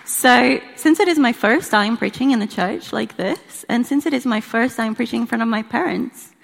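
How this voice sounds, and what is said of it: Brazilian accent in English. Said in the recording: “where my accent's from. I'm from Brazil.”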